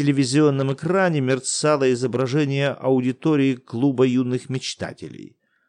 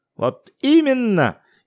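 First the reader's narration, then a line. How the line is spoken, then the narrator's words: Ironic shout on television. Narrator (Russian): иронически выкрикнул какой-то старшеклассник на экране телевизора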